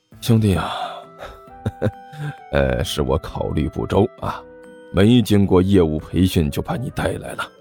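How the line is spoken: Awkward forced laugh. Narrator (Chinese): 关小雨干笑着问道

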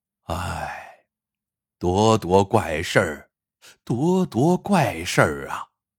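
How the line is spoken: Repeated heavy sighs. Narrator (Chinese): 他不由得连连叹气

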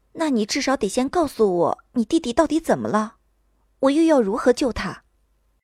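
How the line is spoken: Resigned sighing question. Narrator (Chinese): 不由长叹了一口气，无奈的问道

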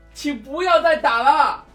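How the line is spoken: Shouting. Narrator (Chinese): 喊道

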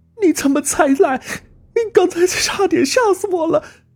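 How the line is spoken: Crying out. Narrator (Chinese): 阿丽哭叫着

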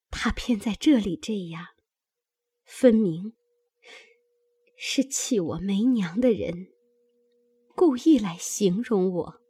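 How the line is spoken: Tearful sigh. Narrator (Chinese): 黛玉 流泪叹道

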